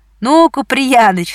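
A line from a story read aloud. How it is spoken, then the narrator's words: Laughing voices. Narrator (Russian): смеялись они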